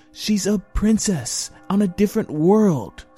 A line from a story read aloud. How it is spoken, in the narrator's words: snapped back Cubby, frustrated at suddenly losing another brother